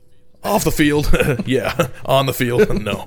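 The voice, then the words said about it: Imitates another person's voice. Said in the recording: “to do a Jeff Heuermann impersonation”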